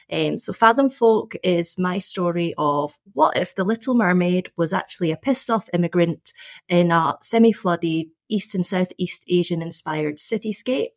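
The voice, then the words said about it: Scottish accent. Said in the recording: “I'm a Scottish-born Chinese background author, as I'm sure you can figure out from this accent... It's a wonderful accent”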